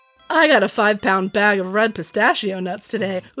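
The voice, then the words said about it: Deep man's voice, congested. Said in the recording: “that's the wrong voice. I was doing a man voice. ... All of my voices kind of sound like man voices, though, since I'm still battling a really annoying congestion.”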